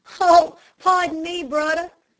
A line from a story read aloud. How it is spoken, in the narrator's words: cried Henry, with the drollest expression of mingled pity and glee